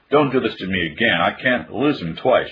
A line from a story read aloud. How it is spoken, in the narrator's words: she cried